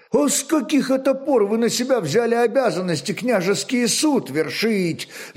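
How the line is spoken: Angry exclamation. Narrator (Russian): не на шутку гневаясь, воскликнул Снеус

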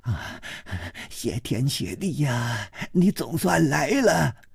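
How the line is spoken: Breathless. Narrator (Chinese): 他喘息着说

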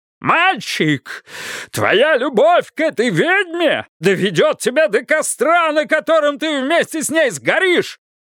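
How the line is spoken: Furious red-faced bellow. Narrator (Russian): Заорал Бидвилл, побагровев, и жилы забились у него на висках, будто назревал взрыв

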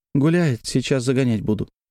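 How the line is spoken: Sighed. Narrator (Russian): вздохнула Лиза

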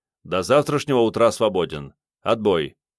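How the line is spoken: Barked a bit too sharply. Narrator (Russian): чуть резче, чем следовало бы, рявкнул

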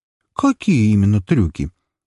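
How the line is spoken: Chuckling question, then laughter. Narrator (Russian): со смешком уточнила она, а затем уже рассмеялась в голос

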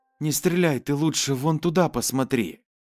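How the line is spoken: Calm, female speaker. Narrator (Russian): девушка спокойно произнесла

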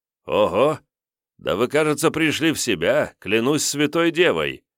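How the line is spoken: Exclaiming in German. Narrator (Russian): воскликнул Д'Артаньян почему-то по-немецки

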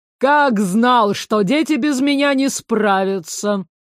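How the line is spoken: Booming rolling bass. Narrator (Russian): громыхнул раскатистым басом двойник лорда

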